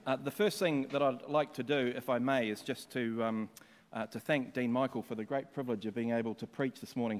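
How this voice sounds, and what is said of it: Speaks with a noticeable accent. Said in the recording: “People can understand my accent.”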